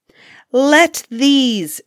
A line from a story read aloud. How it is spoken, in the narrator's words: she cried, yelling and cursing